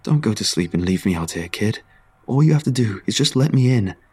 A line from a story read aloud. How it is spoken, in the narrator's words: it begged